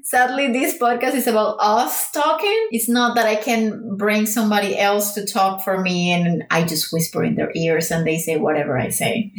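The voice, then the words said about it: Non-native English accent. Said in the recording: “English is not our first language ... if you cannot handle this accent”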